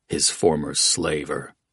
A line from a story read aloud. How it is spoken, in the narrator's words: Oates muttered